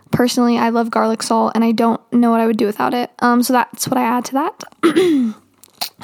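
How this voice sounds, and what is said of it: Out of breath. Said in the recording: “I was running out of breath there for a second”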